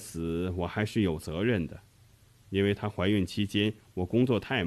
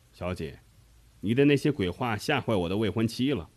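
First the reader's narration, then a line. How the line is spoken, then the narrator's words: Audible reproach. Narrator (Chinese): 用仓本佳玲子听得见的声音责备说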